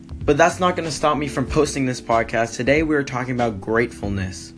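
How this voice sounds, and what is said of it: Strained, fading hoarse voice. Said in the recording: “apologize for my voice. I've been filming all day, and my voice is slowly going away”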